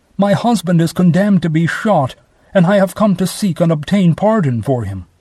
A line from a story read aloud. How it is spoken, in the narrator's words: She exclaimed